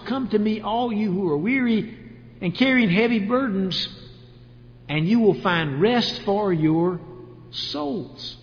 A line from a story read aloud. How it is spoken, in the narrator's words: he said